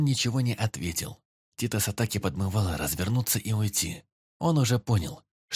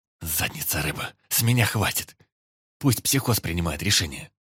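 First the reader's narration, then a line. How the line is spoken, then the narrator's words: Muttered under breath. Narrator (Russian): Буркнул Титос себе под нос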